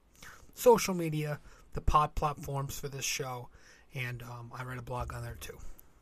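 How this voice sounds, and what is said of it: Strained voice giving out. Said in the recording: “my voice is kind of kicking out. Not because I was yelling.”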